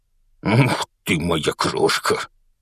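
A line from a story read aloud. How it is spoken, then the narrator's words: Strained laughing. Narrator (Russian): со смехом выдавил из себя мистер Дурсль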